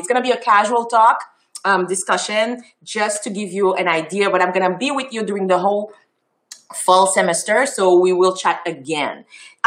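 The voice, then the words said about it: French and Creole accented English. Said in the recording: “my beautiful French and Creole accent”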